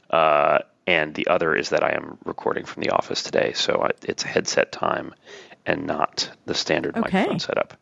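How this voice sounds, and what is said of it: Slightly hoarse, froggy voice. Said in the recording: “I have a little bit of a frog in my throat,”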